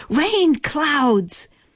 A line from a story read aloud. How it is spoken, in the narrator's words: shouts